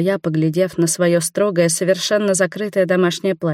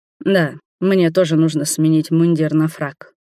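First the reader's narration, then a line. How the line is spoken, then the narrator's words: Rumbling. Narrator (Russian): пророкотал Роберт, устало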